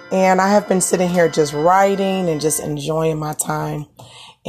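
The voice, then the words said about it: Weak voice, partly recovered. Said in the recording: “As you can hear, my voice is coming back just a little bit”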